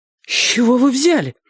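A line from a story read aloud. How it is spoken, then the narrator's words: Indignant exhale. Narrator (Russian): возмущенно выдохнула она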